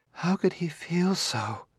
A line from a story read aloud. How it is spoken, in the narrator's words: murmured